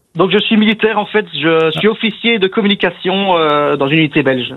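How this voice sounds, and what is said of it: Belgian French accent from Namur. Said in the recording (French): “Je sens l'accent de Namur. ... Namur en Belgique.”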